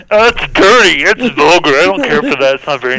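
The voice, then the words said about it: Kermit the Frog character voice. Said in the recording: “Are you okay, Kermit?”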